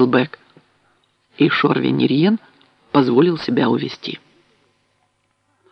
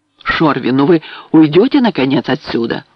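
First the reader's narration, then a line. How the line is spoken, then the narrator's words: Pleading exclamation. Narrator (Russian): умоляюще воскликнул Дакель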